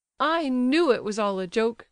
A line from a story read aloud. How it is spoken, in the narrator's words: cried Adelaida